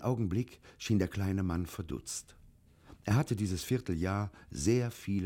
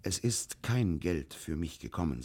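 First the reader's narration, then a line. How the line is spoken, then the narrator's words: Plain, after hesitation. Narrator (German): sagte schließlich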